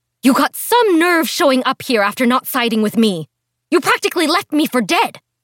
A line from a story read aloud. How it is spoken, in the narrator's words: her voice trailed behind her, and she managed to sputter out